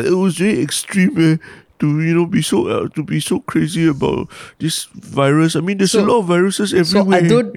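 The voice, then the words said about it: Whiny sobbing-child mocking voice. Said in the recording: “imitate me in that sort of voice... not like a sobbing child”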